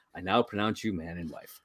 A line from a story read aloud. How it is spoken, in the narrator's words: he quietly is like